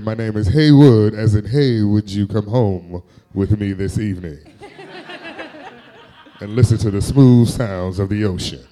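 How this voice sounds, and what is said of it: Smooth R&B announcer voice. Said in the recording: “doing his best smooth guy announcer voice ... R&B slash host”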